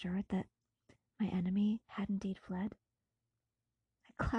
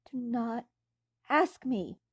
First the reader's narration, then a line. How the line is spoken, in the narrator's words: cried I